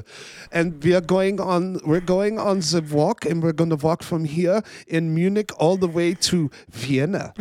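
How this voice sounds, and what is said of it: Put-on German accent. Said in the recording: “I love the accent. That cracks me up every time you do that.”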